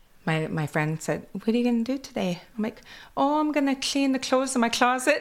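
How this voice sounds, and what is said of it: Kwakwala-influenced English accent. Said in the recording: “my accent from Kwakwala”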